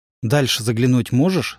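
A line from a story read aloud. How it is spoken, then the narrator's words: Plain. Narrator (Russian): спросил он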